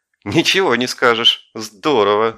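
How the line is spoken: Laughing. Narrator (Russian): засмеялась Варя

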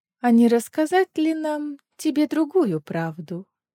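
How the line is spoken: Sickly sweet question. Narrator (Russian): приторно-сладким голосом спросила Маева

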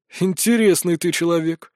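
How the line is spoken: Sighing. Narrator (Russian): вздохнули

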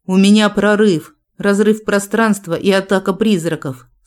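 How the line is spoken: Through gritted teeth. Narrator (Russian): сквозь зубы произнес инквизитор

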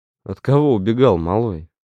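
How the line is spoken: Short chuckle. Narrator (Russian): хохотнул Гриш

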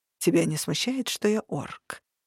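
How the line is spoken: Thoughtful question. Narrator (Russian): задумчиво спросил Варук

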